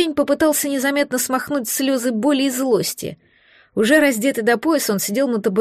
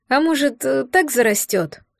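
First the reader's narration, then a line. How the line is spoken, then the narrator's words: Timid question. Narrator (Russian): робко спросил Рик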